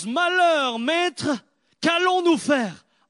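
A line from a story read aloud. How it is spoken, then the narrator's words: Shouted by a servant. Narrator (French): Le serviteur crie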